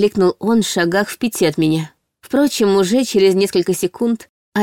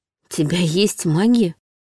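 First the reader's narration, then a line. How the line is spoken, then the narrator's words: Surprised whisper. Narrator (Russian): удивленно прошептала я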